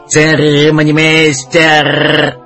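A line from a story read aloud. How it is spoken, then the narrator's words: Parrot's harsh metallic cry. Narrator (Russian): Попугай выкрикнул резким металлическим голосом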